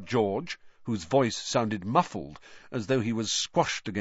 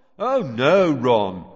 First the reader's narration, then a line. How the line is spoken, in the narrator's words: came Fred's voice, very sarcastically